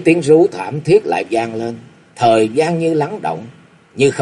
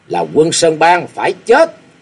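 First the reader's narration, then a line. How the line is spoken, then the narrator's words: Excited loud laughter. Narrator (Vietnamese): y càng cười to phấn khích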